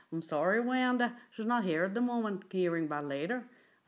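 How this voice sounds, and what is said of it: Twangy Northern Irish accent. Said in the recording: “the Northern Ireland accent, which I tend to find is really quite twangy. I can't really do it very well.”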